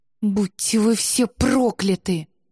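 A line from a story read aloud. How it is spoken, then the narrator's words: Spat through teeth. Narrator (Russian): Сквозь зубы плюнула Элен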